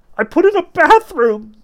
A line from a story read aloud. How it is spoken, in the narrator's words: the bloodied Mogaric cried, his teeth chattering